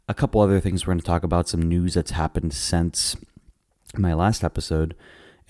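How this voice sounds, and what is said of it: Slightly raspy, hoarse voice. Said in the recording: “excuse my voice if it's a little raspier or something else. I am a little under the weather”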